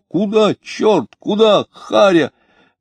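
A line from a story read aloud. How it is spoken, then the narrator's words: Frightened comical shouting. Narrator (Russian): двое, вскрикивая, испуганно и смешно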